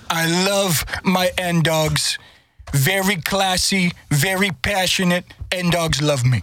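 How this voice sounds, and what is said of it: Imitates another person's voice. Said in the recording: “All right, Donald. ... does a good Donald Trump impersonation”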